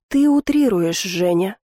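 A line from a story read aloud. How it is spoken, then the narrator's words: Soft. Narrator (Russian): мягко произнес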